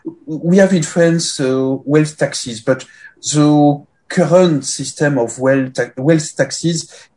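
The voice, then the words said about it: French accent. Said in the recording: “I'm primarily French. Uh, you detect this with my accent”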